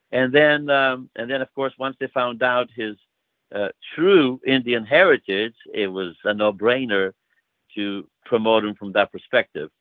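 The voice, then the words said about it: Greek accent. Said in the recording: “my Greek accent here, I can never say this next word right”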